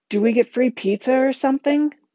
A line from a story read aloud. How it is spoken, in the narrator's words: Connor blurts out